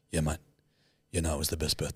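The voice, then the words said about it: Flat monotone delivery. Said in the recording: “It's like this monotone.”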